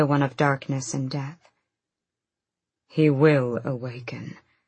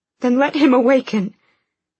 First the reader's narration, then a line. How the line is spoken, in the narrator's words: Elena begged, her voice breaking